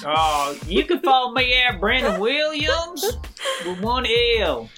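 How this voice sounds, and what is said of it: Put-on Southern American accent. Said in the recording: “in your best Southern accent”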